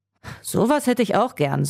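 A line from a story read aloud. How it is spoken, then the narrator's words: Sighing. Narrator (German): seufzte Jasper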